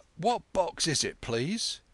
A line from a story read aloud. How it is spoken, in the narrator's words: he said timidly